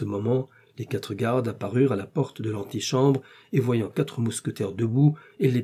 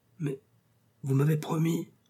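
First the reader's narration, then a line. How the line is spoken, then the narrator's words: Very quiet, meek. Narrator (French): dit tout bas le pauvre mercier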